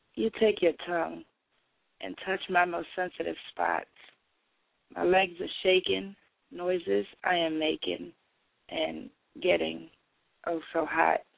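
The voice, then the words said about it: Sick, rough-sounding voice. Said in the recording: “excuse the voice. Y'all know I'm sick”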